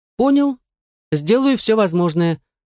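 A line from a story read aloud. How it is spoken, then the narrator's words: Cheerful young report. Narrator (Russian): бодро рапортовал паренек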